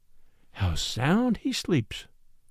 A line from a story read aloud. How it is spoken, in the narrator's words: murmured the girl